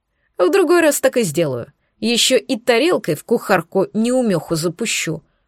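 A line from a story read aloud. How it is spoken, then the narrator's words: Plain. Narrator (Russian): ответил Олаф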